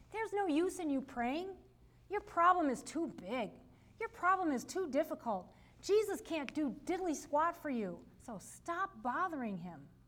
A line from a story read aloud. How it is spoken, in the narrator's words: the opposing voices called out